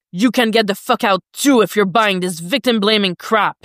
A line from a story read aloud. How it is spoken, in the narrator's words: Jason snaps at Roy